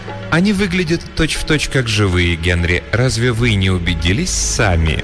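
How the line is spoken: Insinuating question. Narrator (Russian): вкрадчиво спросила она

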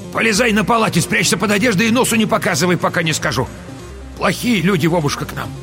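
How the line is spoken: Shout. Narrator (Russian): крикнула внуку

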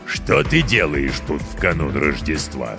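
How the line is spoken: Stern goblin question. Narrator (Russian): строго спросил гоблин

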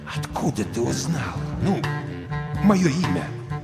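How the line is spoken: Near whisper. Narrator (Russian): Крейвен почти прошептал

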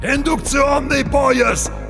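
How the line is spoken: Shouting from a vehicle. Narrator (Russian): кричал Барилла со своего транспортера

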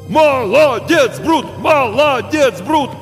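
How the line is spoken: Crowd shouting again. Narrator (Russian): снова закричали зрители

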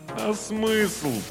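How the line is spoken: Moaning. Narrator (Russian): простонал Вячеслав

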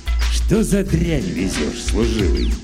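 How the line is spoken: Very gentle question. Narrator (Russian): глядит на него ласково-ласково и спрашивает

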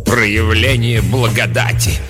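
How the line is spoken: Contemptuous snort. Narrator (Russian): презрительно фыркнула мать-настоятельница

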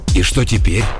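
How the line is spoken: Slightly hoarse, agitated. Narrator (Russian): Голос у Беггера от волнения сделался чуть хрипловатым

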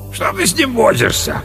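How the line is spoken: Deep booming drone. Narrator (Russian): прогудел пожиратель лосятины

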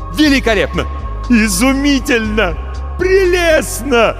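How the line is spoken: Wild enthusiastic shouting. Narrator (Russian): кричал Марамбаль, не опасаясь, что его сочтут безумным

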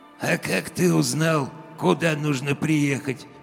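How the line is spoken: Sudden unpleasant husky voice, close. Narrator (Russian): спросил вдруг у меня над ухом голос с неприятной хрипотцой

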